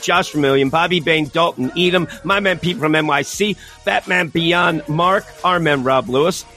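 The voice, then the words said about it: Hoarse, shredded voice. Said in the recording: “losing my voice ... I shredded it. Well, I'm screaming”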